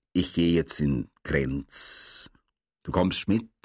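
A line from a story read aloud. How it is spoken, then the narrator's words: Serious, toneless. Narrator (German): sagte ernst und wiederum tonlos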